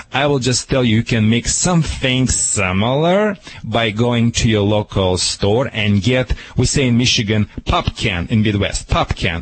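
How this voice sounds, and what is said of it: Speaker's own non-native accent. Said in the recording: “Sorry for my accent.”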